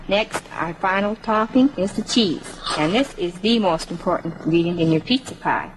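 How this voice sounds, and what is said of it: Manitoba or Minnesota regional accent. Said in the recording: “her accent, she's got to be from Manitoba because she sounds almost like Minnesota ... There's a little bit of ... an accent ... there”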